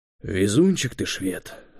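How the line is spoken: Sighing. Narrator (Russian): вздохнул Юрий

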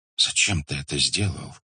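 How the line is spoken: Whispered. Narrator (Russian): прошептал Факих

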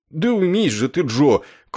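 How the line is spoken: Meek pleading. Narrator (Russian): кротко взмолился он

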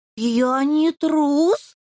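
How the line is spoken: Shrieking little imp. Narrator (Russian): взвизгнул чертенок

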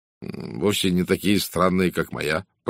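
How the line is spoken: Muttering. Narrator (Russian): пробормотал сэр Чарльз

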